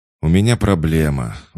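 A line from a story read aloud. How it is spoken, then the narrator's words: Sighing. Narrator (Russian): вздохнул Рауль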